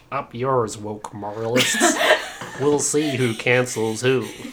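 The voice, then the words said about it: Impression of a cartoon character's voice. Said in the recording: “my Ditsy impression”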